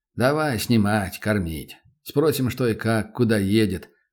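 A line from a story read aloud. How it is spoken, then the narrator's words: Plain. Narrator (Russian): ответил Добрынин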